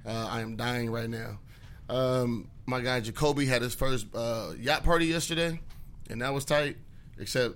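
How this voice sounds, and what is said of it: Tired, worn-out voice. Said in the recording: “It was a really, really busy weekend. I barely slept. You guys can hear it in my voice.”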